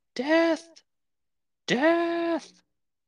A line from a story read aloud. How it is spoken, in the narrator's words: chant and scream